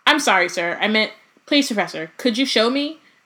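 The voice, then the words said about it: Unrecognizably polite voice. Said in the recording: “in an unrecognizably polite voice”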